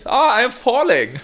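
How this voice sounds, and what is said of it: Put-on German or Austrian accent. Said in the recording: “Was he German? ... No, I reckon he's Austrian. ... The accent still applies.”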